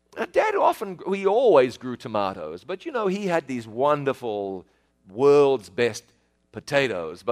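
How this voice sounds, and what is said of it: New Zealand accent. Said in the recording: “I know you have difficulty with my accent every now and then. I have a southern accent. ... New Zealand is about as far south as you can get. ... So I live in New Zealand.”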